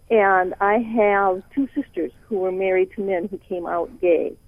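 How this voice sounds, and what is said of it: Northern US accent. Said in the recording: “As you can tell from my accent, I come to Dallas from up north.”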